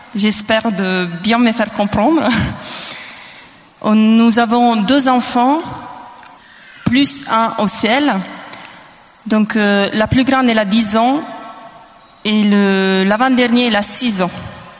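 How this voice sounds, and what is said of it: Italian accent speaking French. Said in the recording (French): “Je suis italienne, donc pardonnez-moi un peu l'accent.”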